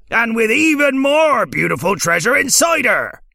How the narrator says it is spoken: he cried

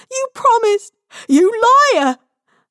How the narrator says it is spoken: her screams and the white noise of swirling snow

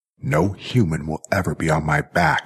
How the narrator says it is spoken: snarled Jackie

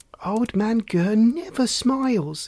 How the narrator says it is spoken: exclaimed Lucinda

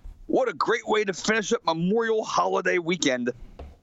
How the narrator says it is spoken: Savage exclaims

